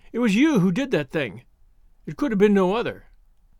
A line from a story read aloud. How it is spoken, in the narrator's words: she cried